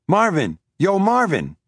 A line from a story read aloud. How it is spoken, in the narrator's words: he cried